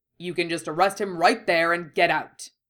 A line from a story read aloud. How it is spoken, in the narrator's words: snapped impatiently